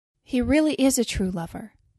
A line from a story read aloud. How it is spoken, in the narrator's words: said the nightingale